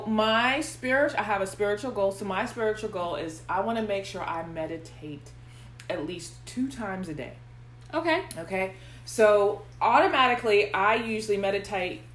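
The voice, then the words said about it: Slight country accent. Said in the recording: “Was there a country accent? ... I try to hide it ... when I get tired, it, it kind of like slips out ... Country bumpkin.”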